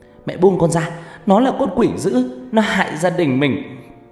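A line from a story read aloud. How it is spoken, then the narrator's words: Screaming, cursing. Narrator (Vietnamese): tiếng của Ngọc Lam kêu gào chửi bới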